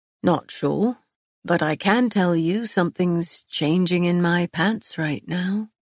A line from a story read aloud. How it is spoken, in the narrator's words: he murmured